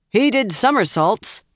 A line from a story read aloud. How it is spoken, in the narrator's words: shouted back